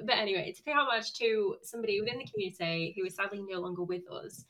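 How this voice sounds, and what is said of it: Northern English accent. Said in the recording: “a northern accent”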